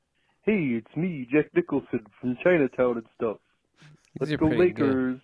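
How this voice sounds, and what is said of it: Imitates another person's voice. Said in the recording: “This is my impression of Jack Nicholson from like Chinatown and stuff.”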